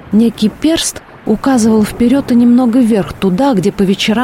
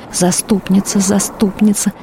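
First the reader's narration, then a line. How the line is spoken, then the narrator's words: Nun's whisper. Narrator (Russian): шептала инокиня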